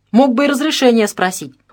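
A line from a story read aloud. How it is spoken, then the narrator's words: Friendly, no longer angry. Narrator (Russian): уже не зло, а скорее доброжелательно произнес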